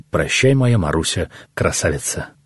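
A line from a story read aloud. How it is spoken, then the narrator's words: Tender, chainmail ringing. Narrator (Russian): Кольчугой он звенит и нежно говорит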